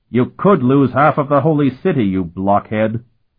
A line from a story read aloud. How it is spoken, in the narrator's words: Colton roared at him